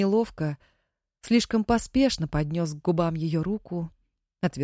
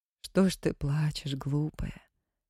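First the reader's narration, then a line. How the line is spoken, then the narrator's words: Soft question. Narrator (Russian): тихо спросила цыганка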